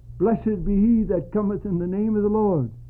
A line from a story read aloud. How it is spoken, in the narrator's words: many of them had likely shouted